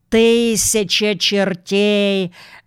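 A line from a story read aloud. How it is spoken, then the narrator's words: Roar. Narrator (Russian): взревел адмирал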